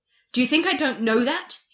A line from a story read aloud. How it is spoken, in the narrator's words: He asked sharply